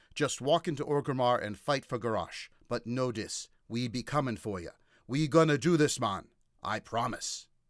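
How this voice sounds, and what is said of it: Put-on troll accent. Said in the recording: “please forgive my difficulties with the troll accent.”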